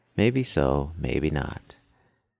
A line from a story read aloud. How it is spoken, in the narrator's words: he calmly replied